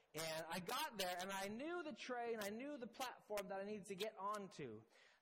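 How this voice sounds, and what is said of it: Canadian accent. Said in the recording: “my very Canadian accent”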